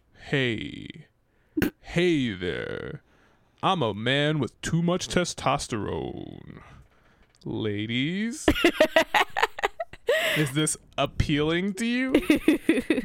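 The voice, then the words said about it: Exaggerated very deep low voice. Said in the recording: “That's how low I can go. ... deep voice”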